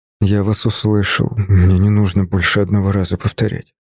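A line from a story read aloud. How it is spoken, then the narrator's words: Quiet. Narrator (Russian): тихо сказал я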